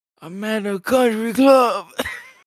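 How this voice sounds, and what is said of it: Drugged, slurred Quaalude voice. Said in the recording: “doing the Quaalude voice”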